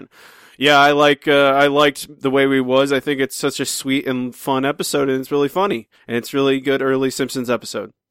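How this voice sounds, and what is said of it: Impression of the co-host. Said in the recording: “I'll give my best Matt impersonation.”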